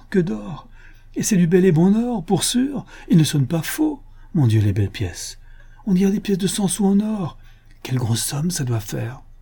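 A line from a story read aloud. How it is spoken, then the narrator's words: Sighing. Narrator (French): Et elle ajouta avec un soupir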